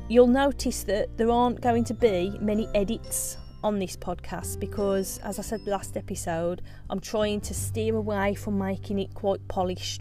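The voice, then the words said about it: Strong regional British accent. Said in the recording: “I don't think you can be polished with a Brennell's accent. By the way, I do love my accent.”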